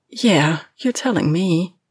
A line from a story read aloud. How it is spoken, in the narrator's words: Lena groans